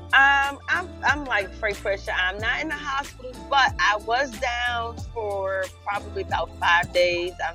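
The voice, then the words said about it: Hoarse, congested voice. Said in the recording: “hear it in my voice... couldn't breathe out my nostrils... Lost my voice”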